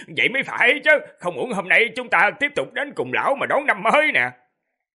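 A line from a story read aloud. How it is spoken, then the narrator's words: Laughing loudly. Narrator (Vietnamese): cười lớn nói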